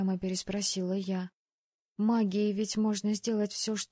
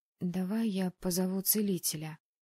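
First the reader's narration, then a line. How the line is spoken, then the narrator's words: Timid suggestion. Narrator (Russian): робко предложила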